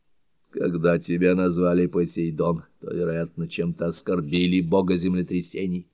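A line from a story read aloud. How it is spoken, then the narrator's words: Mumbled. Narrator (Russian): Мюллер пробормотал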